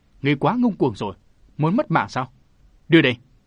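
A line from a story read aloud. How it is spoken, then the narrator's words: Old man shouting. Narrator (Vietnamese): Lão ta hét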